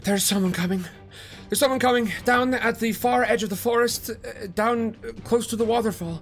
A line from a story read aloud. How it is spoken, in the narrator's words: panting, they say